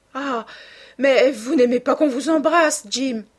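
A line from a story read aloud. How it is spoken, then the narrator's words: Exclaiming. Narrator (French): s'écria-t-elle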